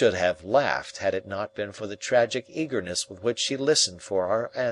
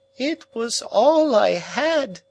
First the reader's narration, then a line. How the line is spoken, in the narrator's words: she wailed